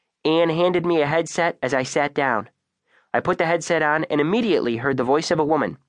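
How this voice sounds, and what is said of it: Usual voice. Nothing is said of it.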